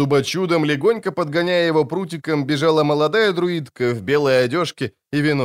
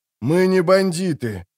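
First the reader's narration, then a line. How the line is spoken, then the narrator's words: Strained, breathless groan. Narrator (Russian): простонал сверху Геральт, едва выжимая голос из стиснутой ветками груди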